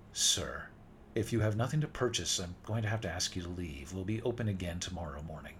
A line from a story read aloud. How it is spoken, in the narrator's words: said a little more firmly